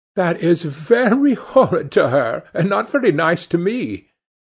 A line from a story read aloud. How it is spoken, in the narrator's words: answered Dorian, laughing